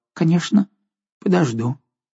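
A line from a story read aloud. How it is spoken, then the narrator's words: Timid old woman. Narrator (Russian): Старая дева робко сказала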